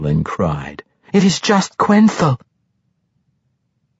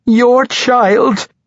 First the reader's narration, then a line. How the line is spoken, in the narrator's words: she begged pathetically